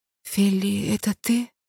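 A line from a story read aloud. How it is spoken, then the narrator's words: Whispering. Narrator (Russian): прошептала она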